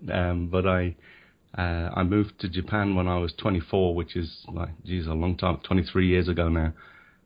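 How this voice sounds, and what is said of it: English accent. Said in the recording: “I'm born in England. You can tell by the accent.”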